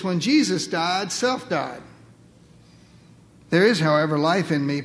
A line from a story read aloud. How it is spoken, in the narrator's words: Paul said